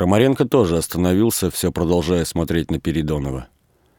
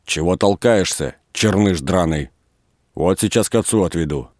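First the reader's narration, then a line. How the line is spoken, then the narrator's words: Angry. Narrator (Russian): Передонов сердито сказал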